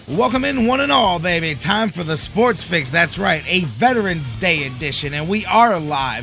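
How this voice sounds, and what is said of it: Voice audibly worn after a long night. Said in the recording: “You can hear it in my voice a little bit too. Long, long weekend, long night last night ... I've got a bridge in my nose”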